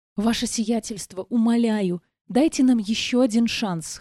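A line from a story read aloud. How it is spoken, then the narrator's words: Hoarse pleading mutter, captive. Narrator (Russian): хрипло пробормотал плененный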